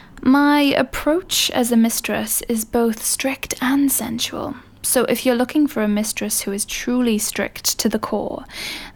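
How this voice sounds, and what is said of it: British accent, sultry librarian-like voice. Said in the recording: “I am British ... I sound like a sexy librarian ... the British accent”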